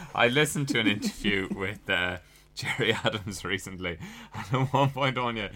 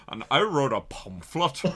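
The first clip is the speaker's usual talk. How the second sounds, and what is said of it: Imitates another person's voice, swallowed word. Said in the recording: “He swallowed half the word as he said it.”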